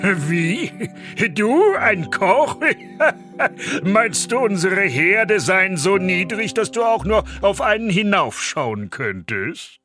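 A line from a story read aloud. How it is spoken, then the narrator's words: Mocking, loud laughter. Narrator (German): Der Oberküchenmeister brach in lautes Lachen aus und rief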